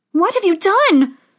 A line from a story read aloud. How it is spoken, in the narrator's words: cried Snow White